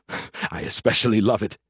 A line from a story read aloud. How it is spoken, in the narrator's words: he chuckled